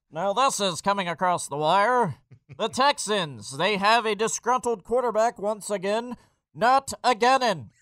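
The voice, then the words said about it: Nasal, fast old-time radio announcer voice. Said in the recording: “the old school radio voice ... Do I sound like I'm on old-time radio? ... Just hold your nose like this and talk really fast.”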